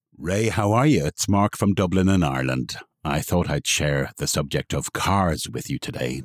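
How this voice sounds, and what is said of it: Irish accent. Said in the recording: “with his lovely Irish accent.”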